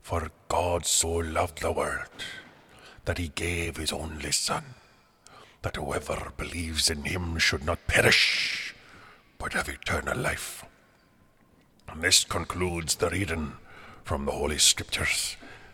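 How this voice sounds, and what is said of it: Leeds accent. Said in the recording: “I can never figure out where your accent's from ... From Leeds.”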